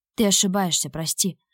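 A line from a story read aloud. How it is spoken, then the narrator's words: Remorseful fading whisper. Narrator (Russian): Сокрушенно шепнул Тимур в своей угасающей надежде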